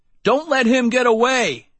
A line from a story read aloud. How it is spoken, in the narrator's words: Darnell shouted